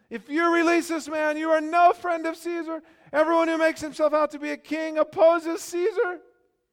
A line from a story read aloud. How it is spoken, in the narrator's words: the Jews cried out saying